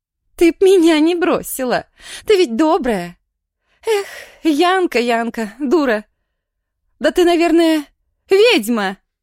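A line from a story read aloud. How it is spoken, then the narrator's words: Shouted. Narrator (Russian): крикнула Женя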